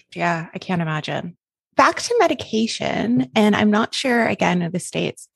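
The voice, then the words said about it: Canadian English accent. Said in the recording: “I'm Canadian, by the way, if my accent is throwing you off and you're like, she does not sound Australian”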